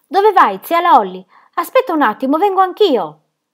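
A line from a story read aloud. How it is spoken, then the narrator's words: Shout. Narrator (Italian): Le aveva gridato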